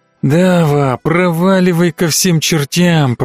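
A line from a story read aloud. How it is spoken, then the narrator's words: Grumbled. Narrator (Russian): проворчал я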